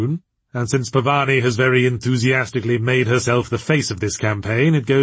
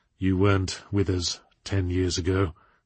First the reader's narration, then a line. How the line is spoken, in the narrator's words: she said through her teeth